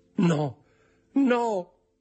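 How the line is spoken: Shouting. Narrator (Italian): gridò

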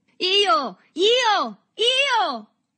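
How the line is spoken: Boys shouting in unison. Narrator (Italian): gridarono tutti insieme i ragazzi

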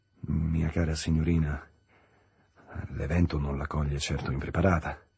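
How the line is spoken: Awkward murmur. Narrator (Italian): mormorò quasi impacciato

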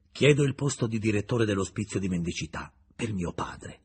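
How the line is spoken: Cold reply. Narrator (Italian): rispose Julien freddamente

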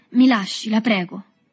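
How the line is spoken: Exasperated voice. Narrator (Italian): Agostino disse con voce esasperata

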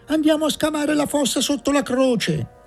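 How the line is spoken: Distant shout from dark room. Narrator (Italian): si udì gridare dal fondo buio della stanza

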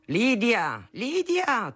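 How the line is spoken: Thundering voice. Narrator (Italian): tuonava al mattino

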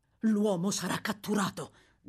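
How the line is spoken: Plain. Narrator (Italian): disse

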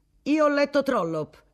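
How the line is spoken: Former minister exclaiming. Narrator (Italian): esclamò un ex ministro degli esteri

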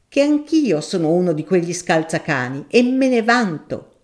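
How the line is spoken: Professor thundering. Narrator (Italian): tuonò il professore

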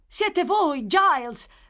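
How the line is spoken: Child shouting. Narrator (Italian): gridò il bambino

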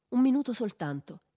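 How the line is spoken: Naive, pleading, childlike insistence. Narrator (Italian): insisté Jatkov col tono ingenuo e supplichevole di un bambino

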